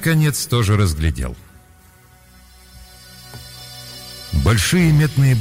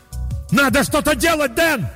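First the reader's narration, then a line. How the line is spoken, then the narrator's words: Yelling at full voice. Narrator (Russian): заорал я во весь голос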